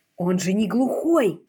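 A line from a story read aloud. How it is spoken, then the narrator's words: Hiss. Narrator (Russian): прошипела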